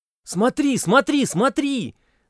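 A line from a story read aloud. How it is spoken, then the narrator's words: Shouting teenage boy. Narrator (Russian): закричал высокий белобрысый парень из 10 класса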